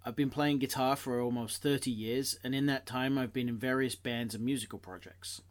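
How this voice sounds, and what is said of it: Hybrid British-American accent. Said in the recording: “I have rather a strange hybrid accent. I grew up in the UK and moved to the Boston area”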